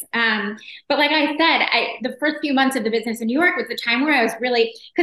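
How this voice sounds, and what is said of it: American New York accent. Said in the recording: “you're an American in London ... they hear your accent”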